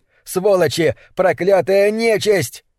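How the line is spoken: Furious shout. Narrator (Russian): В приступе бешенства Дебуна крикнул

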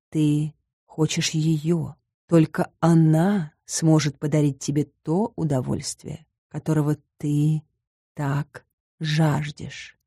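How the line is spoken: Quiet. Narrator (Russian): тихо произнесла

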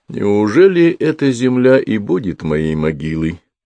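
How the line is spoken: Calm musing. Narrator (Russian): спокойно размышлял Всеволод

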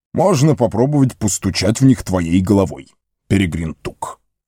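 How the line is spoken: Wizard's irritated reply. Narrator (Russian): раздраженно ответил маг

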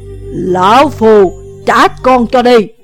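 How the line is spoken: Loud shout. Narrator (Vietnamese): huyết đao lão tổ lớn tiếng hô

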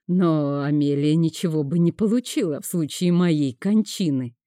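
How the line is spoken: Smug tone. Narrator (Russian): Самодовольным тоном проговорил Тхорьев

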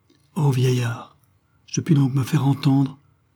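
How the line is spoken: Joyful yet bitter cry. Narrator (French): s'écria-t-elle avec l'accent d'une joie mêlée d'amertume

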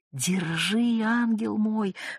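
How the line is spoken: Fearful whisper. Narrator (Russian): шепотом же отвечал тот, боязливо оглядываясь

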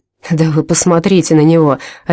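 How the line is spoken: Barked. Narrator (Russian): рявкнул Рейнер

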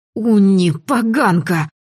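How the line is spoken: Breathless exclamation. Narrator (Russian): выдохнула я

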